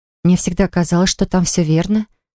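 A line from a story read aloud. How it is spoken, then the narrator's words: Gentle objection. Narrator (Russian): мягко возразила Полли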